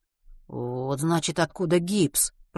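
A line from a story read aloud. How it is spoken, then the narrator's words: Muttered. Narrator (Russian): пробормотал Матвей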